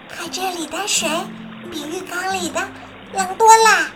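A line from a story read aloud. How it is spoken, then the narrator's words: Quiet. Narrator (Chinese): 伊娜小声说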